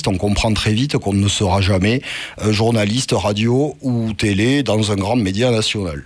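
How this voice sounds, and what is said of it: Thick southern French accent. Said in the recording (French): “un accent méridional, on comprend bien épais ... bien remarquable ... chantant votre accent”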